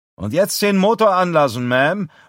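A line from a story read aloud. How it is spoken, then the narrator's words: Called out. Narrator (German): ruft Galen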